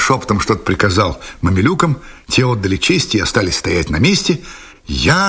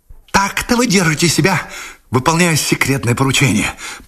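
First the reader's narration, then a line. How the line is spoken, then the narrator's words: Hissed, male. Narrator (Russian): прошипел он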